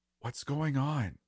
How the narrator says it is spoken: Rachel whispered

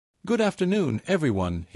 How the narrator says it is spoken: began, his voice steady

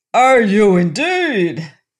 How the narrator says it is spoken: he roared

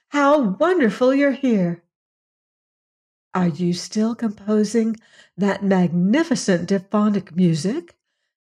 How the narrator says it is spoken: asked another breathlessly

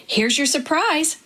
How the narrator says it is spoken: Dad exclaimed

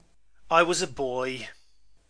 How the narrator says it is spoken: he said impatiently

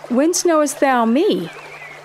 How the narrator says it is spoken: In surprise, Nathanael exclaimed

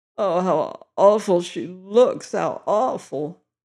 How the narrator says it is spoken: groaned her father

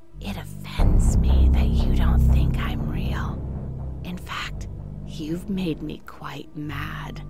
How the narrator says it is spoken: She whispered to me

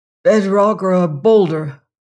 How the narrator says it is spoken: said hoarsely

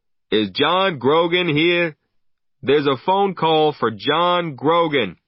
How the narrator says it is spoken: the barman called out

